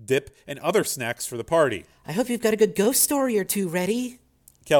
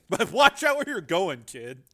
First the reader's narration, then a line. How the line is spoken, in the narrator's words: Joe said, laughing